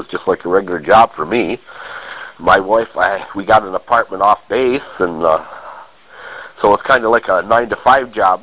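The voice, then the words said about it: Scratchy voice, rough breathing. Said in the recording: “Pardon my voice if I sound a little scratchy. I came down with a darn cold ... it's a little rough breathing”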